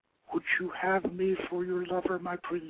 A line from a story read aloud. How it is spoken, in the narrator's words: she whispered